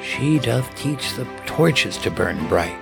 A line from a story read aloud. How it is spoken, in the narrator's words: he whispered to himself